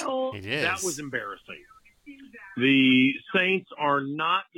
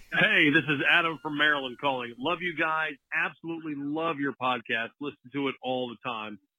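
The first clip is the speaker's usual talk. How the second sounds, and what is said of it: Radio announcer voice. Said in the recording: “The radio voice.”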